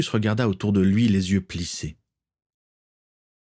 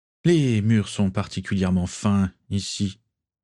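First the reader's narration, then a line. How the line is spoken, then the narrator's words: Plain. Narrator (French): dit-il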